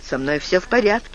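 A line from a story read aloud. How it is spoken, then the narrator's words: Plain. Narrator (Russian): сказал Джек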